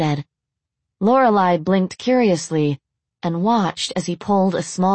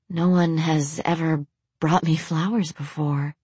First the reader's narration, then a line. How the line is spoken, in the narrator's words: she whispered